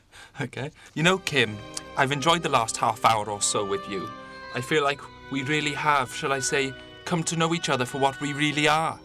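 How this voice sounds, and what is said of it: Put-on Welsh accent. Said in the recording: “Gertie begins to speak in a Welsh accent.”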